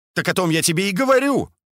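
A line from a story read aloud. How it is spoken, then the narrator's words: Singer exclaiming. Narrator (Russian): воскликнул вокалист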